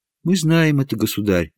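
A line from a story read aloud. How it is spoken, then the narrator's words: Respectful princess. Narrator (Russian): почтительно сказала принцесса Елизавета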